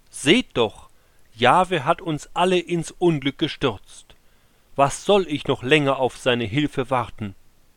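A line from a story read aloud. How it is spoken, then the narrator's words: King calling out. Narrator (German): der König rief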